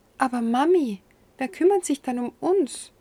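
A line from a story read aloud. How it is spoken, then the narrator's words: Sweet encouraging child's voice. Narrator (German): sagte lieb zu mir mit einer ermutigenden Stimme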